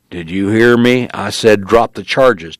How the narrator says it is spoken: Tony said in a louder growl

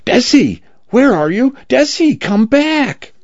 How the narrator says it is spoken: Cal screaming

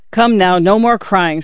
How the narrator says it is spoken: said the father in a firmer tone

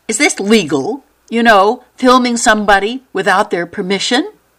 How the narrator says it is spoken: She finally blurted

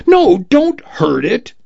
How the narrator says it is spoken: she cried

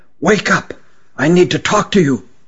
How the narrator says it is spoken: he whispered huskily

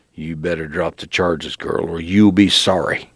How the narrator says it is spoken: growled

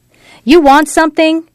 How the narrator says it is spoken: she asked, ready to kick and scratch and yell if necessary

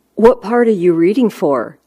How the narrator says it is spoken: I asked

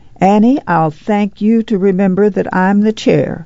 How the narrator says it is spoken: Jessie Bullitt said sternly

